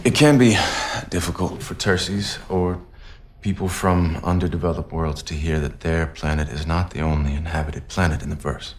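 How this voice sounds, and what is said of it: Inconsistent, slightly British accent. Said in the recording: “His accent stays and goes... So he's just a little on the edge of the British, and then later it goes away completely, and then early on it's bad.”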